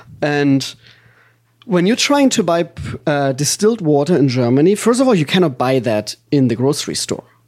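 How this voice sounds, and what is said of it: German accent. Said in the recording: “everybody knows I'm German ... My accent is a real accent. I am from Germany.”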